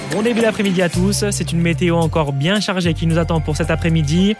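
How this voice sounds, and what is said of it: Slight southern French accent. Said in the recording (French): “le petit accent du sud”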